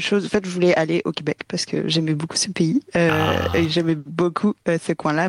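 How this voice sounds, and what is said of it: French accent from France. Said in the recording (French): “vous l'entendez à mon accent, je viens de France”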